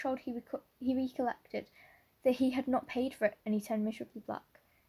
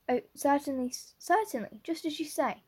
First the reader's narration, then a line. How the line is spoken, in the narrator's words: stammered unhappy Matthew